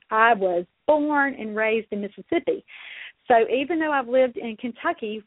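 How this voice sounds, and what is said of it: Southern US accent, sing-song cadence. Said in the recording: “as you can clearly hear, I am from the Deep South ... I still, as you can hear, have my southern accent ... speak with emphasis on our vowels and have that sing-songy kind of cadence or prosody”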